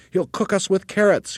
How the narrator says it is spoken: cried the third

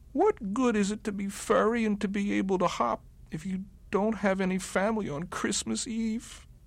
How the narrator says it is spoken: Barrington cried and cried

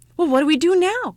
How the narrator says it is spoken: cried the ugly child

